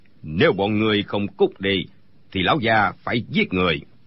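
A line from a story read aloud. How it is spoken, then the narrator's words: Shouting. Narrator (Vietnamese): Đinh Bất Tam quát lên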